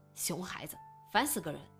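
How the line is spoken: Grumbling. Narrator (Chinese): 程峰 嘟囔着

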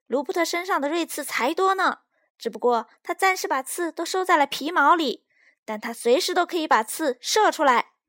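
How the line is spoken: Shouting. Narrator (Chinese): 斯派克大叫

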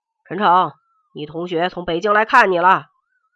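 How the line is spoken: Shouting from outside. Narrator (Chinese): 门卫李大爷在门外喊道

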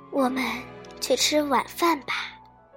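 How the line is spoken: Sloppy sigh. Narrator (Chinese): 邋遢地叹了口气

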